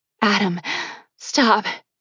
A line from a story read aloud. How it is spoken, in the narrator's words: she pleaded